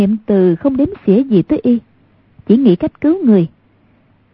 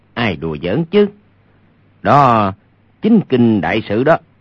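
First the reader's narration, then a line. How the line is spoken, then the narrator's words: Low voice, laughing. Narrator (Vietnamese): Hoàng Nhan Khang hạ giọng cười nói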